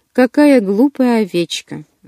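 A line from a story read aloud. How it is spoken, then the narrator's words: Sighing. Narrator (Russian): вздохнула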